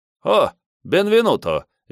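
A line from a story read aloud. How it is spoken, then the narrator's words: Cheerful. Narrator (Russian): весело сказал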